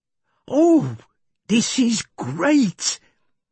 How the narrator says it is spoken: Jeff smiled happily

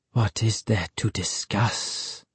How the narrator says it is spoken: Ahmed asked softly

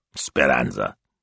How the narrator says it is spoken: grunted

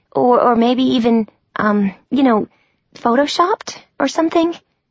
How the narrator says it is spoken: I asked, my voice going all high and screechy, in what my mom used to call my liar's voice

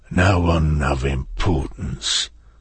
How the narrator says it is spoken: Tamas said through clenched teeth

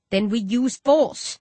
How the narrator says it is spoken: I growl

